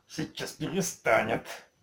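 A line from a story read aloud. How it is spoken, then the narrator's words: Spider's malicious hiss. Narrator (Russian): злобно прошипел паук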